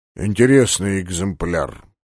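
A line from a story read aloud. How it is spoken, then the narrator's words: Mutter. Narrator (Russian): пробормотал полубой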